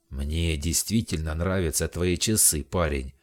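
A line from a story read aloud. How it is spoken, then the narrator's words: Deep, mock-threatening voice. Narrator (Russian): продолжал басом, стараясь придать голосу угрожающие нотки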